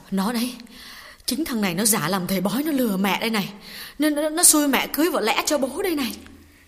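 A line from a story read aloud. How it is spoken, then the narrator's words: Trembling low voice. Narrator (Vietnamese): Bà run run nói nhỏ với con gái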